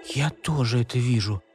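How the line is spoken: Whisper. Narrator (Russian): шепнула Маша

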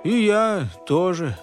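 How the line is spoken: Dejected. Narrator (Russian): уныло сказал Артур

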